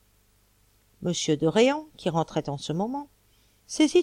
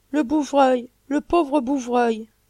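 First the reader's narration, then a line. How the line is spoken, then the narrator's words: Exclaimed. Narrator (French): s'écria Paul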